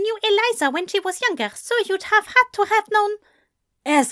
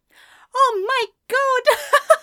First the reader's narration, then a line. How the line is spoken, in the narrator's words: Anathema laughed